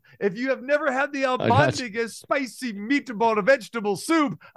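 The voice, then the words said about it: Put-on Italian accent. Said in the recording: “I don't know why I'm doing an Italian accent”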